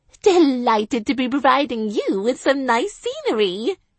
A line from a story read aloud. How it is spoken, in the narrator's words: I said, with a gay laugh